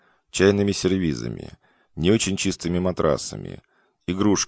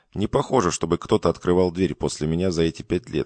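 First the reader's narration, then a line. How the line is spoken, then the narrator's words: Plain. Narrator (Russian): сказал он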